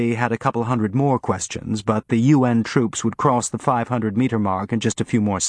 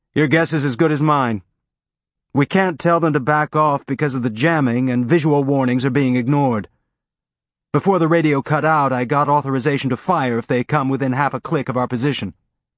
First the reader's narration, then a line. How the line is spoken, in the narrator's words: He gave her an irritated look and yelled